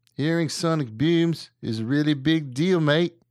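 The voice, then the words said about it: Put-on Australian accent. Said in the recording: “Horrible. ... That's horrible. ... Australian accent.”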